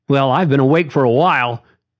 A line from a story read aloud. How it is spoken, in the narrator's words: Jerry said excitedly and too loud